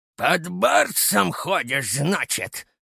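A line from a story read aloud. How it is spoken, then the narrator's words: Angry. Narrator (Russian): зло проговорил Евсей Анатольевич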